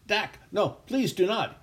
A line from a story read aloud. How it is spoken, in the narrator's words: he cried out